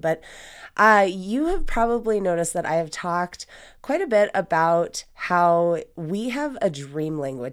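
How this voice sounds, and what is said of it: Froggy, hoarse voice. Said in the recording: “excuse my voice. I'm a little froggy today”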